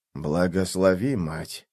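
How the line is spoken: Whispered by small creature. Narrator (Russian): прошептал клещик

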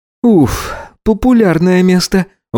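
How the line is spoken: Exhaled. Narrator (Russian): выдохнул Гидеон

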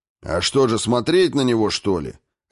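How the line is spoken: Bark. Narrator (Russian): рявкнул губитель

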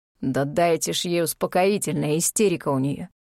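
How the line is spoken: Hoarse unknown voice. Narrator (Russian): прохрипел чей-то голос

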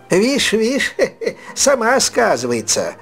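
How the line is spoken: Crowd remark with laughter. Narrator (Russian): Заметили в толпе и опять рассмеялись

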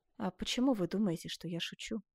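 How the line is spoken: Dying man's sighing whisper. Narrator (Russian): с тяжким вздохом прошептал умирающий

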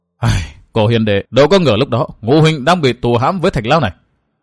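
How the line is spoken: Sighing mutter. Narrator (Vietnamese): Thường Ngộ Thanh thở dài lẩm bẩm

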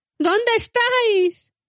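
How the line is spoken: Lamenting shout. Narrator (Spanish): gritó como en un lamento

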